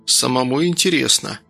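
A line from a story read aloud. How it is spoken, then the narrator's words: Tired, smiling. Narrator (Russian): устало улыбнулся Данил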